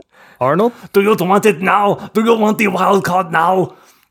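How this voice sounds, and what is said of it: Attempted Austrian accent. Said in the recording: “I don't know why Hundi's Austrian now ... I can't do a single accent”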